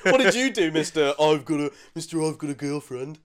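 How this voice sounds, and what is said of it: Imitates another person's voice. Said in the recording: “That's my impression of you.”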